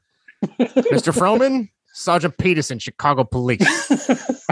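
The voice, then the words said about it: Strong put-on Chicago accent. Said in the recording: “that was a really strong Chicago accent.”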